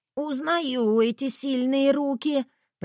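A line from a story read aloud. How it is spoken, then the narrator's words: Wheezed, half-choked. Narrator (Russian): прохрипела я, слегка придушенная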